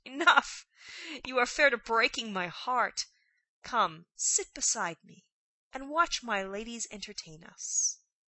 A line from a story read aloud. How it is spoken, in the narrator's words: the great lady cried out